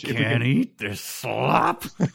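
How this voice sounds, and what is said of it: Imitates another person's voice. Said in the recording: “his Kirk Douglas impression.”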